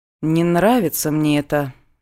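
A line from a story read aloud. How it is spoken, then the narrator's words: Gloomy, forced-out words. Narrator (Russian): мрачно выдавила подруга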